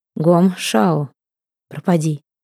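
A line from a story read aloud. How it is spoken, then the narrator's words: Calm. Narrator (Russian): сказал спокойно султан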